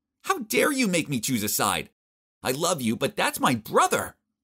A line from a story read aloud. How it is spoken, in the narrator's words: Vicky furiously shouted